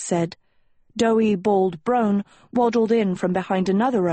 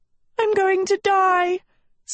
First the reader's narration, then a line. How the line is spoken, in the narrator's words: Sophie wailed as she fled the forest